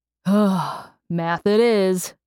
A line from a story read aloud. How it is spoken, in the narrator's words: Zeddy sighed